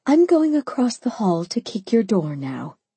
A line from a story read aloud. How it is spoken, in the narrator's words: I sighed